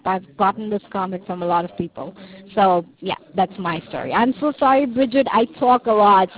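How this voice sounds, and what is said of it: South African accent. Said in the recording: “I know I have an accent ... I think your accent is beautiful ... I'm from South Africa, by the way. That's the reason why I have this funny accent. It's not Indian and it's not Malaysian. It's something of a mix-up.”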